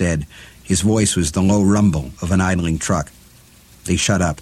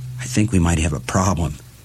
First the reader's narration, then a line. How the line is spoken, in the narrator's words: George whispered